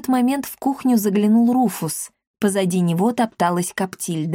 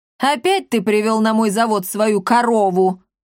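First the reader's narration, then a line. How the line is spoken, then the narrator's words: Ringing shout. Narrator (Russian): звонко крикнула Клеопа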